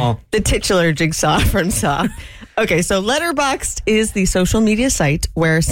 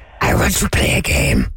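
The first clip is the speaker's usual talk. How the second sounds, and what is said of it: Jigsaw impression from Saw. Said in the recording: “I actually really hurt my throat. ... your Jigsaw impression? ... it was me as Jigsaw.”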